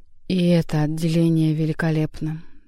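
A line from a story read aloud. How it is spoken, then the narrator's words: Solemn. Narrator (Russian): торжественно признал Коровьев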